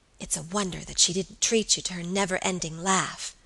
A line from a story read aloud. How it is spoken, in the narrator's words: whispered Alicia